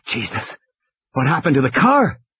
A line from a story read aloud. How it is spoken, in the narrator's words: Malcolm gasped